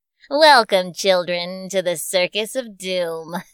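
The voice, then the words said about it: Creepy character voice. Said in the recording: “I sound like a creepy”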